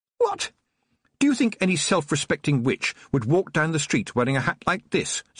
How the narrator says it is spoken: said Tiffany angrily

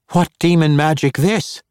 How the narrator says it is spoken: one of the halfling band cried

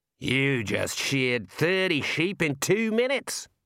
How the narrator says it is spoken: roared Daggy

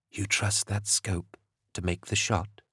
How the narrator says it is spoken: She whispered

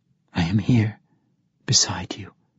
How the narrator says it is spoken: another whisper

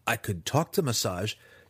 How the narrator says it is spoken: Driz pleaded

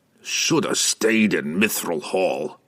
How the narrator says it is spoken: Brunner grumbled

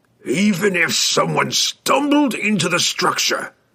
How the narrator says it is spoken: he growled, impatient with the relentless stream of impossible suppositions

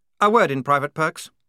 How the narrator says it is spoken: snapped Blouse

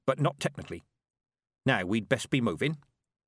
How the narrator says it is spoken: said Granny Weatherwax, and added quickly

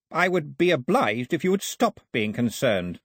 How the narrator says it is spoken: Ataba snapped

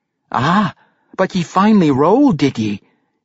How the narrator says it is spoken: he heard his mother say

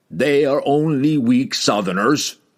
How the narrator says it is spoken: growled Hefstag, thrusting out his barrel chest in pride

